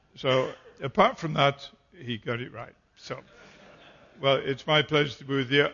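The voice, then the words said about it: English accent. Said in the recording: “what you would probably call my accent, and which I know is English”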